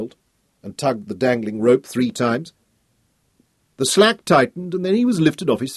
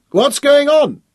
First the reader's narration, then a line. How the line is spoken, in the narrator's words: he shouted up at Boris